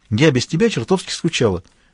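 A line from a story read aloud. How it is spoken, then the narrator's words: Joyful. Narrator (Russian): радостно сообщила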